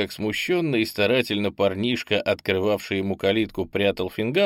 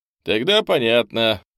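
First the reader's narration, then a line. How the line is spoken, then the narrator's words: Snorting hmph. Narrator (Russian): хмыкнул Андрей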